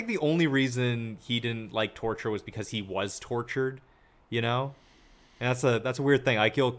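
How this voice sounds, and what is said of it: Usual voice. Nothing is said of it.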